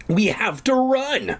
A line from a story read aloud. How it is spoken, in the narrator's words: I shouted